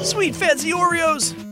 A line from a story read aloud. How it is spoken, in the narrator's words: cried Vale